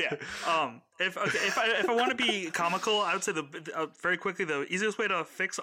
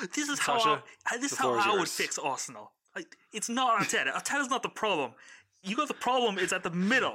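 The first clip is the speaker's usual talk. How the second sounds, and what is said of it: Put-on football fan accent. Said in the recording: “we're going to get sued by Arsenal Fan TV if you keep doing that accent”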